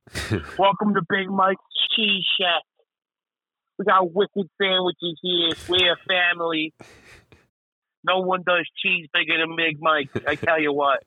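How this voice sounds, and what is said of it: Unconvincing fake Boston accent. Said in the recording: “I want to have a fake Boston accent ... It doesn't even sound like Boston.”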